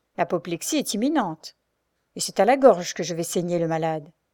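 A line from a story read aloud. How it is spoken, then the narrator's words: Grave voice. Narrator (French): ajoute-t-il d'une voix grave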